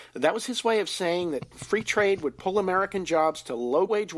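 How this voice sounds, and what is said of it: Usual voice. Nothing is said of it.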